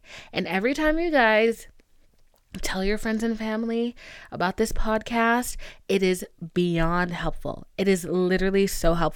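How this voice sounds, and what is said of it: Serious, earnest speaking voice. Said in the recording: “I have my serious voice on.”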